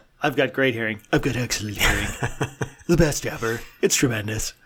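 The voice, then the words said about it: Imitates another person's voice. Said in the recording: “That's a terrible Trump impression. ... That wasn't bad, actually.”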